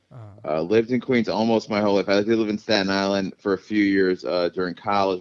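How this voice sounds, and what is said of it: New York outer boroughs accent. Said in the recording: “I have a bit of an accent, like a New York outer boroughs accent.”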